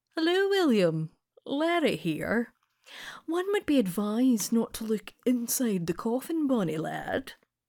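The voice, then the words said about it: Posh Edinburgh accent. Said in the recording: “the dog speaks to me in a posh Edinburgh accent.”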